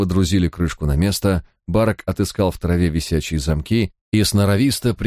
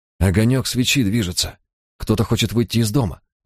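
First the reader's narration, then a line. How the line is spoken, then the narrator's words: Breathed out. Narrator (Russian): выдохнул я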